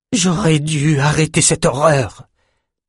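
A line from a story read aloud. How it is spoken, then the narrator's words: Furious roar. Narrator (French): rugit-elle furieuse contre elle-même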